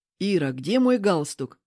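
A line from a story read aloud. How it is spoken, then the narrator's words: Irritated husband. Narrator (Russian): раздраженно бросает муж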